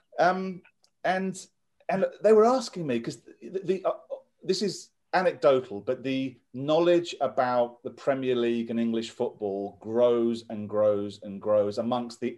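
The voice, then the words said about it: English accent. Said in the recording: “lots of people heard my accent ... You're an English.”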